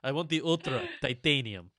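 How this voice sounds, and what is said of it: Put-on foreign accent. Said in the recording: “What accent was that?”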